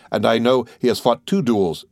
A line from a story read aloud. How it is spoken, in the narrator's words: said Morel